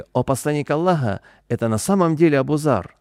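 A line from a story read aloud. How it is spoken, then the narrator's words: Crowd exclaiming. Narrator (Russian): люди воскликнули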